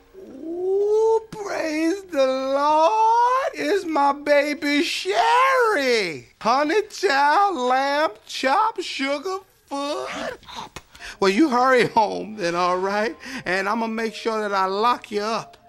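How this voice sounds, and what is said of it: Exaggerated fake old lady voice. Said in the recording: “That is a terrible old lady voice. ... He got this one-ass old lady voice. ... Nobody sound like that.”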